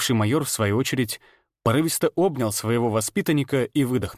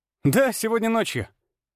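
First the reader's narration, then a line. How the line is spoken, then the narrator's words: Joyful. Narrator (Russian): радостно кивнул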